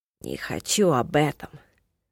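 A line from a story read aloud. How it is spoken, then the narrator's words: Gloomy dismissal. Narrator (Russian): мрачно отмахнулся Киллан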